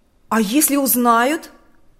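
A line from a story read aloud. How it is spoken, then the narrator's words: Exclamation. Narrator (Russian): воскликнул Харитон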